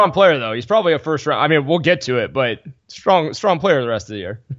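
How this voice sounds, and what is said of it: Usual voice. Nothing is said of it.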